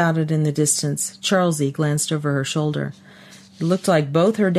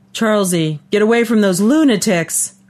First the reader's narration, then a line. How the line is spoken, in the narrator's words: her dad yelled